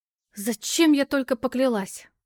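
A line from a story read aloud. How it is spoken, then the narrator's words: Despairing female exclamation. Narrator (Russian): воскликнула с чувством безысходности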